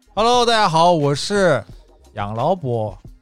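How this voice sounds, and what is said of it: Odd put-on accent greeting. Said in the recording (Chinese): “哎呦，这什么口音啊？ ... 博士口音，”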